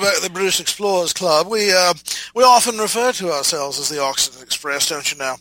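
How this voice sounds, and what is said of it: Shifting put-on British accents. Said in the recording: “my wildly gyrating through different dialect British accent. I pretty much covered the entire British Isles there.”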